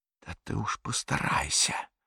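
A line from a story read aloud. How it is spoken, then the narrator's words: Whisper. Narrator (Russian): прошептал фюрер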